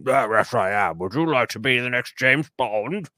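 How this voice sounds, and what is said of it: Imitates another person's voice. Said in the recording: “my Cubby Broccoli impression. It's the same as my Robert Maxwell impression and my Alfred Hitchcock”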